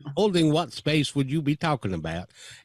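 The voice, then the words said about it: Put-on Southern accent. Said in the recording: “I always put on a Southern accent”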